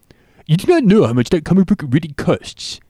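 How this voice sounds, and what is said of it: Comic book guy character voice. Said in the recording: “I can do comic book guy... It's pretty good impression”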